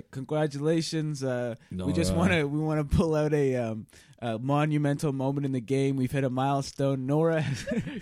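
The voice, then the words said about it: Imitates another person's voice, sounds congested. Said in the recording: “your Boston Rob just sounds like you have a cold ... I changed to being Jeff Probst halfway through that impression”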